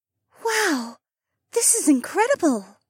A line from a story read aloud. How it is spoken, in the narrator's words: Rachel breathed